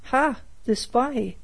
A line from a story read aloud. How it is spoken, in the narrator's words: exclaimed